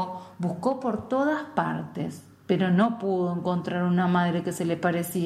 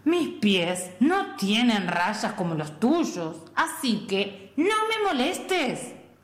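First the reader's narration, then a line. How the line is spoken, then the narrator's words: Walrus growling. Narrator (Spanish): gruñó la señora morsa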